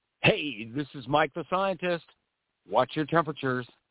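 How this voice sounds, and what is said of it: Announcer-style radio voice. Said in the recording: “Okay, you sound like a radio guy.”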